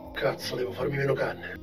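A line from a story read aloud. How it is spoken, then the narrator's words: Muttered. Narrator (Italian): borbottò Giovanni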